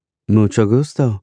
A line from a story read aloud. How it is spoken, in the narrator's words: she says in an almost perfect accent